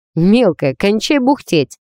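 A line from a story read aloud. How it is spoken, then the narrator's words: Cheerful retort. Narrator (Russian): весело отозвался зануда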